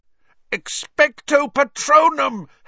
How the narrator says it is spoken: Harry yelled, trying to blot the screaming from his ears

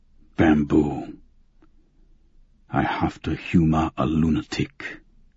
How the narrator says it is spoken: he muttered

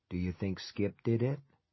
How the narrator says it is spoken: Lowering his voice, he said

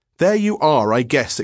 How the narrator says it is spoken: exclaimed Square triumphantly

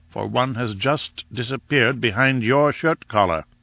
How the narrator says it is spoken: said Summerlee grimly

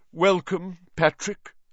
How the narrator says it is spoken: said Nick stiffly

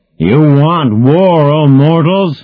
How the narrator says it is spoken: bellowed the bearded face of Zeus

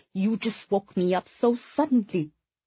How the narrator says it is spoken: Sui muttered in frustration

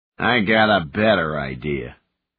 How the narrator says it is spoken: the leader sneered

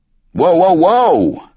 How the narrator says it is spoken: I yelled

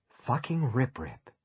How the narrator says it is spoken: he breathed

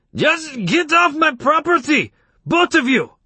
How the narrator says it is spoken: Samerjian's face purpled, and he shouted

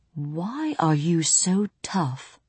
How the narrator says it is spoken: he asked

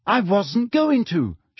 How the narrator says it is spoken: she shouted

